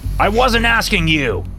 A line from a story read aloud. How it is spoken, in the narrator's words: he yelled at me